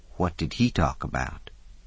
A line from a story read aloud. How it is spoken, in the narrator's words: Fauna asked quietly